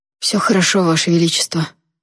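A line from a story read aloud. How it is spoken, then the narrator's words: Hoarse young man. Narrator (Russian): хрипло отозвался молодой эвирец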